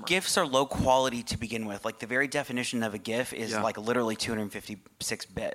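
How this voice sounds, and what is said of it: Very fast speech. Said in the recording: “I'm talking so fast. ... Slow down.”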